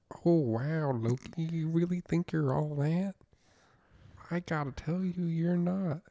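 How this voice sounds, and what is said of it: Impression of a TV character. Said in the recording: “your impression”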